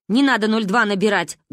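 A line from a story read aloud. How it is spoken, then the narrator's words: Barked. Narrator (Russian): гаркнул дядя Миша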